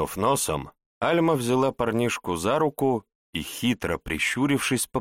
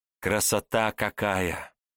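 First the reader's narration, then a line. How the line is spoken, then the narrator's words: Quiet, slightly envious girl. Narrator (Russian): С неким оттенком зависти негромко произнесла девчонка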